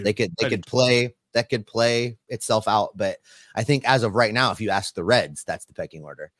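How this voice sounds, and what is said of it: Hoarse, worn-out voice. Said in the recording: “my voice is gone”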